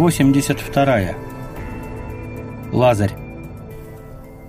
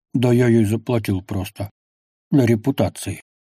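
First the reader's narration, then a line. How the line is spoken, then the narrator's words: Grumbled mutter. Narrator (Russian): буркнул он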